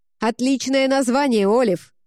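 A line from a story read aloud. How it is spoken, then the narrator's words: Shouted out. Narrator (Russian): выкрикнула Тэмми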